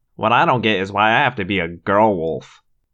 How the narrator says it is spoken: Marco grumbled

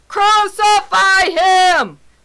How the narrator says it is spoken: they shouted all the more

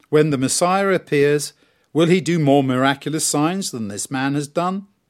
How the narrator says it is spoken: they said

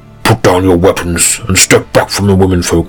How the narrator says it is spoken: he bellowed

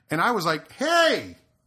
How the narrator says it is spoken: I yelled

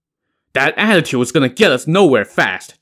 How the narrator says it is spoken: Zhang Heng snapped

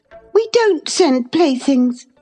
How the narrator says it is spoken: cried Catherine, her pride overcoming her shame

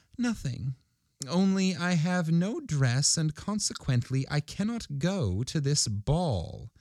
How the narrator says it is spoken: By a violent effort, she subdued her feelings and replied in a calm voice as she wiped her wet cheeks

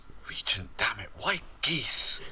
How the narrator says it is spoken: Corzin just mutters

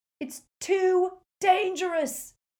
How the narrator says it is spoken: Ron yelled

